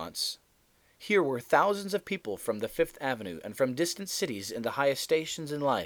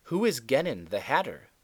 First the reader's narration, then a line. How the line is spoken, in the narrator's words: they exclaimed